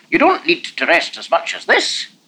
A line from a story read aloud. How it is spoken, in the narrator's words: Lanark said irritably